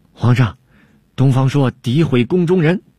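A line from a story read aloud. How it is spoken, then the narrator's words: Angry aggrieved complaint. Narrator (Chinese): 郭舍人恼羞成怒，向汉武帝叫屈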